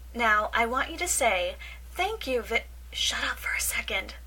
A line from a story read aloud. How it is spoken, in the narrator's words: Michael hisses